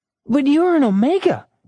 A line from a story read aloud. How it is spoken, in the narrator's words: exclaimed Rachel